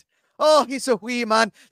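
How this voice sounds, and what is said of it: Deliberately bad put-on Irish accent. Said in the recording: “give us the Irish accent ... accents are my strong suit. Okay. They're just not good. I do them knowing full well they suck.”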